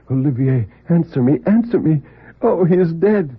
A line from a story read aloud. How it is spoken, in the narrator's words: cried out repeatedly